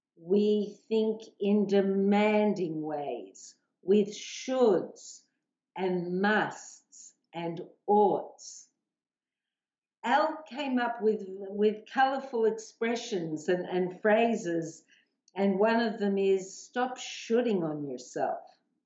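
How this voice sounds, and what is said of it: Australian accent. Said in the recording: “my Aussie accent”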